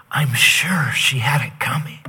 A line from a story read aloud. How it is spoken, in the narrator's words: kind of confused, the ambassador whispered